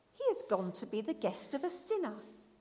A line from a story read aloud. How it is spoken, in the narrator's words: All the people began to mutter